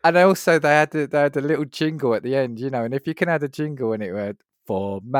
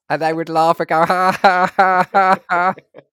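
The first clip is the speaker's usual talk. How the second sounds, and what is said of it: Funny robot voice laughing. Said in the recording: “they were robots that had these funny voices like this ... That's actually not a bad impression”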